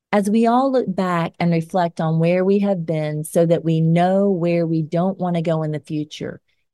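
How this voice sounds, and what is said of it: Southern US Georgia accent. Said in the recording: “my Georgia accent”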